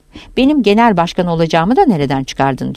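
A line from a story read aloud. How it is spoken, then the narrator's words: Impulsive, sharp tone. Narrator (Turkish): diyor fevri bir sesle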